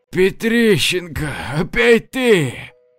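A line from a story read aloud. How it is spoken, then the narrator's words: Moaning. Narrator (Russian): простонал Валера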